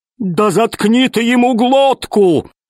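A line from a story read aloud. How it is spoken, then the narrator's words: Yelling. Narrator (Russian): завопил весельчак У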